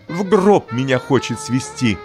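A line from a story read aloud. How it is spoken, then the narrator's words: Shouting mother. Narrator (Russian): крикнула Богданова мама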